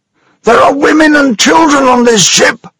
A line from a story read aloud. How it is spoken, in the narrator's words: shouted Mr